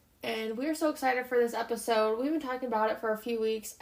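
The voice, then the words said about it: Sick voice with a cold. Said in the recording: “tell by my voice yet, but I am a little sick ... had a cold”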